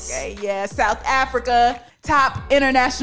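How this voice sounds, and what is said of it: Usual voice. Nothing is said of it.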